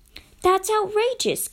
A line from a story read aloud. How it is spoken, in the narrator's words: Kate exclaimed